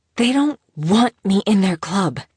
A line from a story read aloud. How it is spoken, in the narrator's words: she insisted, her words almost hissing out between clenched teeth